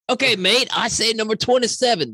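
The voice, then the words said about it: Mixed Southern and Australian accent. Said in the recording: “That was my southern accent and my Australian accent mixed together.”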